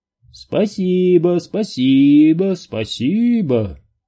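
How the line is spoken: Booming. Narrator (Russian): прогудел Хендер

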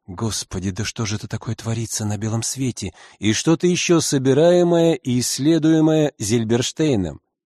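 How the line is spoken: Elderly woman whispering. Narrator (Russian): губы шептали

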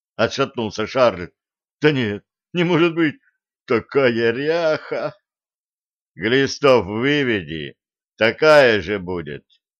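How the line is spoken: Deep bass voice. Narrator (Russian): пробасил Денис

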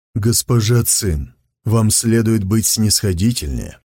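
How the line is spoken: Gentle. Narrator (Russian): мягко сказал он

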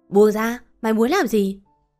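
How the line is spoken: Angry shout. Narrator (Vietnamese): Lam tức giận quát

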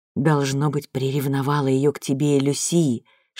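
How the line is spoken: Whisper in the ear. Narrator (Russian): шепнул на ухо Борис

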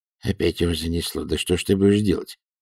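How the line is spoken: Grumbled under breath. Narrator (Russian): буркнул Альберт себе под нос

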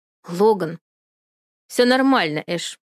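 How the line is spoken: Cold. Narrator (Russian): холодно произносит он

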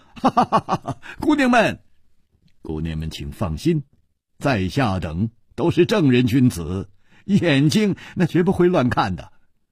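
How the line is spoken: Smiling. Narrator (Chinese): 楚留香微笑着说

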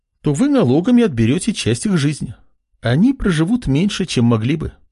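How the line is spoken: Young woman's calm reply. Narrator (Russian): спокойно ответила девушка

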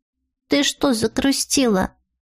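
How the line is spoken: Quiet question. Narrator (Russian): тихо спросила

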